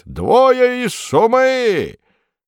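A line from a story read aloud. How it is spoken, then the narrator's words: Old man's loud shout. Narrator (Russian): Старик да как громко крикнет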